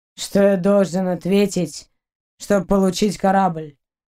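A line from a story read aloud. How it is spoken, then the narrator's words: Low growl. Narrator (Russian): Она низко зарычала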